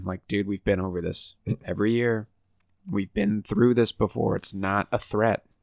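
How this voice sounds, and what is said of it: Stuffy, congested voice. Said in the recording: “apologize for my voice. I feel like it's jarring. My allergies ... I'm still stuffy as McStuffins.”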